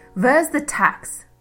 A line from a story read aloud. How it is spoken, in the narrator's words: she barked, enjoying her power over the woman who once abused her